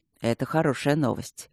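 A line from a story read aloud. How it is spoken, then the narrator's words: Soft, delicate voice. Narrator (Russian): мягко и деликатно сказал Алекс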